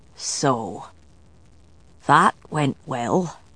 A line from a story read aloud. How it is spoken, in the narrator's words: Galloglass muttered